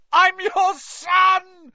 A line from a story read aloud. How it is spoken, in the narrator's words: he screamed up at Crouch